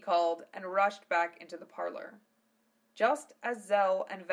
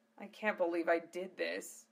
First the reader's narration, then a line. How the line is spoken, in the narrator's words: muttered Zell